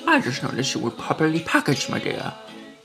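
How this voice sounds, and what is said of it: Grinch character voice. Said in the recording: “my Grinch impression”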